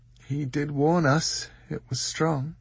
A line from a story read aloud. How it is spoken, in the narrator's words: said Dor sleepily